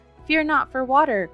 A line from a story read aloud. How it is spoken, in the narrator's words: cried a third